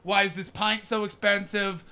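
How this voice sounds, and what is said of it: Mock northern English accent. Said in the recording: “doing an impression of London people doing an impression of a northern person”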